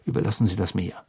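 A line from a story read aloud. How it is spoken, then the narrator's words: Plain. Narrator (German): sagte Bill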